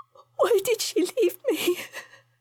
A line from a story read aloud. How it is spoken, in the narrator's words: sobbed against his chest